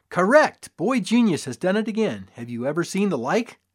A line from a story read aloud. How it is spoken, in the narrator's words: boomed